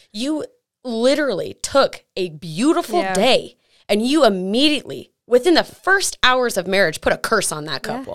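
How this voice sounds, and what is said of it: Angry, upset tone of voice. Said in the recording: “I'm still mad. If you can't hear it in my voice, I'm still mad about it.”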